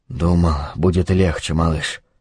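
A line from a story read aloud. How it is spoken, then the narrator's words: Whispered. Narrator (Russian): прошептал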